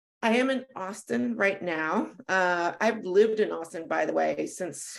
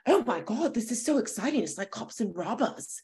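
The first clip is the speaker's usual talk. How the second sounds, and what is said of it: Put-on British accent. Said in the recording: “It's a Texas British accent. That's really good.”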